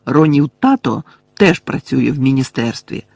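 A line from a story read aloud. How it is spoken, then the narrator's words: Angry exclamation. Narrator (Ukrainian): сердито вигукнув Гаррі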